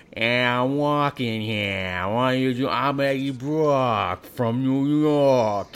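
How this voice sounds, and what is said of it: Exaggerated mock New York accent. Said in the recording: “his very authentic New York accent, as, you know, filtered through a British man ... He sounds like he is from, like, New York, but, like, he'd been, like, kicked in the head by a horse ... he has a major speech impediment”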